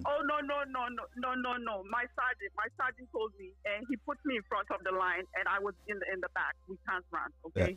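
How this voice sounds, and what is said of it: Put-on accent. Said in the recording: “this is my accent. I am putting on an accent”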